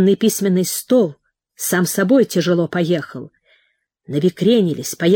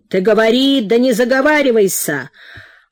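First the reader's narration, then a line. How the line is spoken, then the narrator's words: Shouted. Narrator (Russian): Петр Данилович крикнул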